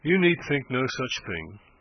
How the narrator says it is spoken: said she, dryly

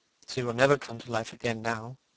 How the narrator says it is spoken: murmured the lad, burying his face in his hands

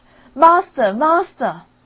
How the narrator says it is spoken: the harp cried out

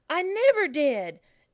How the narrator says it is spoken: exclaimed Peter indignantly

